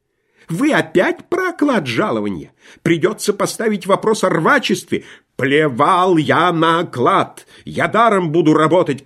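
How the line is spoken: Agitated shouting. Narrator (Russian): кричал инженер, взволнованно

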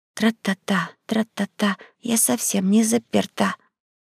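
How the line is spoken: Soft singing. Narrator (Russian): тихонько пропел над ухом

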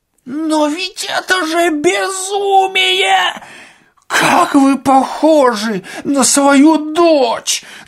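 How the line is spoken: Full-voiced shout. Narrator (Russian): закричал Ипполит Матвеевич полным голосом

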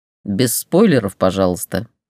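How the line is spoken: Amused snort. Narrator (Russian): хмыкнул Рихт

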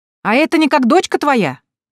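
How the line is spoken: Woman shouting after someone. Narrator (Russian): крикнула вдогонку тетка Анна

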